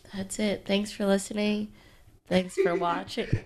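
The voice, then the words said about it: Flat monotone, stuffed-up voice. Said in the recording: “You don't sound very excited. ... I'm trying to be monotone so you can't hear how stuffed up my voice is.”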